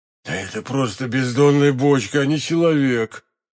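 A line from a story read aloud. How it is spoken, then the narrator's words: Muttering male voice. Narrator (Russian): пробормотал хозяин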